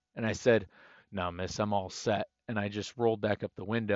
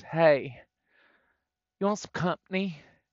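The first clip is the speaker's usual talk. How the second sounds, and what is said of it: Exaggerated West Virginia accent. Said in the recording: “in the most West Virginia accent ever”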